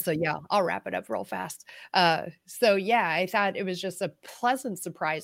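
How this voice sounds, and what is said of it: Hoarse, fading voice. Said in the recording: “my voice is starting to go out a little bit too”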